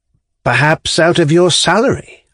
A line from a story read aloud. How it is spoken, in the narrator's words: observed timidly